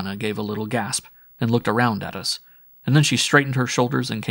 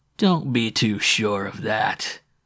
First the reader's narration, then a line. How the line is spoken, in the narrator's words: he growled